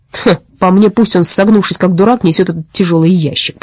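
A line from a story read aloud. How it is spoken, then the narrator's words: Grumbling. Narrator (Russian): проворчал Касперль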